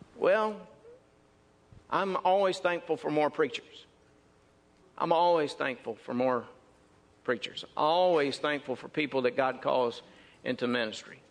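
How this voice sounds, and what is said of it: Mississippi Southern American accent. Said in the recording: “they could tell that by my accent. They said, Mississippi.”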